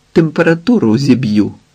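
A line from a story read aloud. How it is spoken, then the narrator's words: Laughing speech. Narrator (Ukrainian): сміялася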